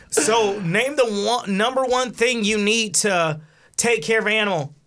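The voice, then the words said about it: Imitates a TV game show host. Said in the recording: “Good impression... I feel like I was watching TV.”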